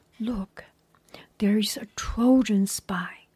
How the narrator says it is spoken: Odysseus whispered to Diomedes

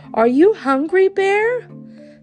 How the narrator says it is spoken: Simon said brightly, trying not to show his fear

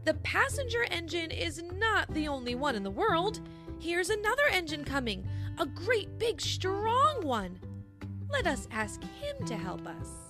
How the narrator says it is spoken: the little clown called out

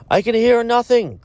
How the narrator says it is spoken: cried another

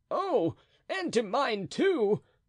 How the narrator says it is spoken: cried Planchet, transported with enthusiasm

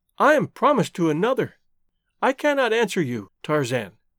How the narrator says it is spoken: cried

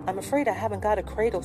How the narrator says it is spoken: said Philip, with a nervous laugh

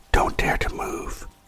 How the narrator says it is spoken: he whispered

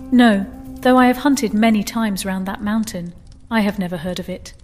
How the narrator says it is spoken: said the Vizier

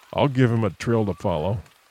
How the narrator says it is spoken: muttered Rainsford

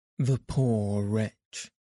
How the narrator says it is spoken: exclaimed Passepartout

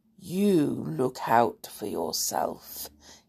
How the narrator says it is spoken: he said in a curiously soft voice

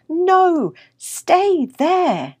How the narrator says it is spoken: his humans calling his name and shouting

